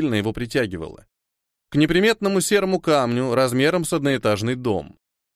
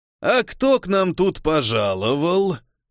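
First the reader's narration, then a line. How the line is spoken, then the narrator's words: Booming echoing voice. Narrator (Russian): прогремел голос, усиленный пещерным эхо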